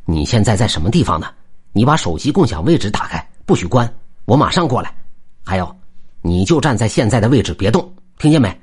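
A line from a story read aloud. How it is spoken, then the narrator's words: Hurried question. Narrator (Chinese): 急忙问道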